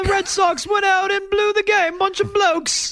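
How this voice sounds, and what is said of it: Put-on British accent. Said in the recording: “sure, I do a British accent. It's not that hard.”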